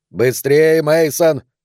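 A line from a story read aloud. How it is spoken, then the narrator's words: Shouting. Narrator (Russian): кричал Картер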